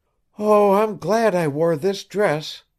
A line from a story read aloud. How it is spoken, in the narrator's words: sighed the girl